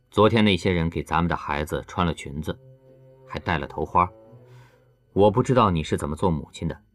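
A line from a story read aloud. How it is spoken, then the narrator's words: Flat, indifferent tone. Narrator (Chinese): 他表情淡淡的告诉刘亚楠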